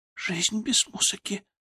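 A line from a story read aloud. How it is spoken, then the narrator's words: Whispered. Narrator (Russian): прошептала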